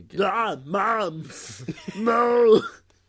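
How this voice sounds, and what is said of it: Arnold Schwarzenegger impression. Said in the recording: “That's actually pretty good. ... That was the best Schwarzenegger impression I've ever done.”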